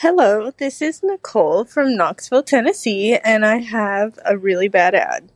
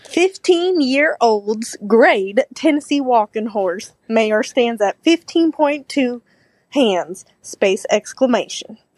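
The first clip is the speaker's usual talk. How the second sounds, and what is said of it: Put-on Southern US accent. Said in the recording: “I'm going to do my southern accent.”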